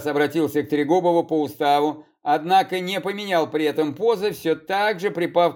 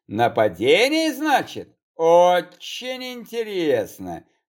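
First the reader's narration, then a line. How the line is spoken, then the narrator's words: Drawling. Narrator (Russian): протянул Трегубов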